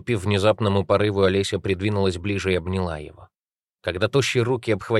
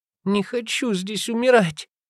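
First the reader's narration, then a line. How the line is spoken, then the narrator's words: Gasping, tearful, forced out. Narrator (Russian): задыхаясь, выдавила Олеся сквозь слезы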